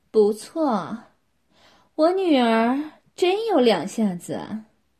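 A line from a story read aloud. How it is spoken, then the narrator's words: Mother, pleased laughing. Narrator (Chinese): 他妈妈满意地笑着说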